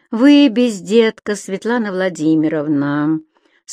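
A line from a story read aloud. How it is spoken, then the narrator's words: Bored voice. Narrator (Russian): скучным голосом начал майор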